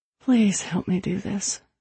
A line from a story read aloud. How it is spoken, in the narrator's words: I whispered into it